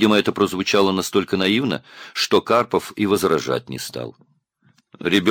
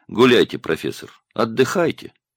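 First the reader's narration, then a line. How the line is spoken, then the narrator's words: Condescending elder's tone. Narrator (Russian): сказал он снисходительным тоном старшего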